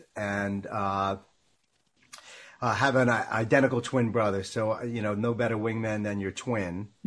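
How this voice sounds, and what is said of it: Long Island New York accent. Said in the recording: “So I grew up in Long Island, New York, thus the accent”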